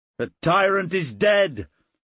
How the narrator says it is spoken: he shouted

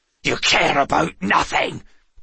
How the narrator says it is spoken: Tregane spat

